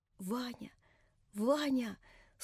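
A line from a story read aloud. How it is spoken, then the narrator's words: Weak voice. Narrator (Russian): слабым голосом проговорила Наташа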